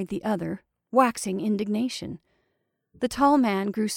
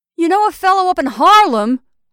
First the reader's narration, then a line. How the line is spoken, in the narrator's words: howled the tall man